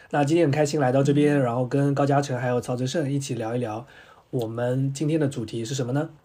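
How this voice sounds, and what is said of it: Cantonese-accented Mandarin. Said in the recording (Chinese): “我是广东人，听我口音就知道了”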